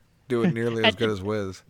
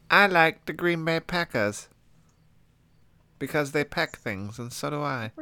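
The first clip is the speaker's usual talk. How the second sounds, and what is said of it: Imitates another person's voice, poorly. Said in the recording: “doing a Luke impression ... And a pretty bad one at that ... that sentence was too precise”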